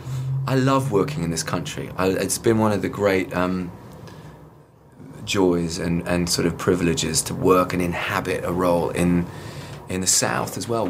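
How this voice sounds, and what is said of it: British accent. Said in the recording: “you have such a lovely British accent, which is very nice to our American ears”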